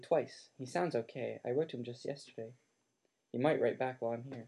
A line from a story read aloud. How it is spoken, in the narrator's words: said Harry softly